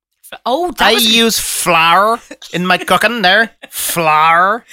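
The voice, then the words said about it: Imitates another person's accent. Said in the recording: “That was a good accent.”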